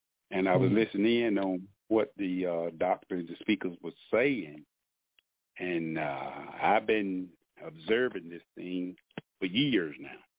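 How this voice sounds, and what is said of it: Southern American drawl, Alabama. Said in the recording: “By the sound of my southern drawl, y'all know I'm an Alabamian.”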